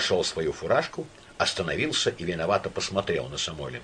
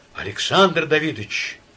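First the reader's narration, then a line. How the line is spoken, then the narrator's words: Pleading voice. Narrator (Russian): сказал он умоляющим голосом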